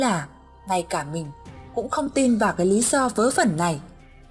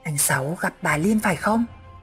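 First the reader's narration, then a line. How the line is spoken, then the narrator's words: Sudden low whisper. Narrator (Vietnamese): Thằng Biển chợt hạ giọng thì thầm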